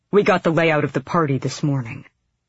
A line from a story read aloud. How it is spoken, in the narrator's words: Brello said tightly